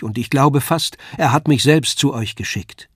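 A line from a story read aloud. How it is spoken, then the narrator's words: Called out. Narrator (German): rief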